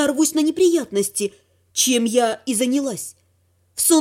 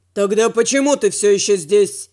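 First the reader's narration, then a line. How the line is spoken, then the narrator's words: Barked. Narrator (Russian): Рявкнул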